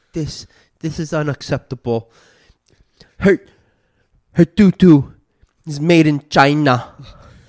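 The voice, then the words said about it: Donald Trump impression. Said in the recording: “do a Donald Trump impression”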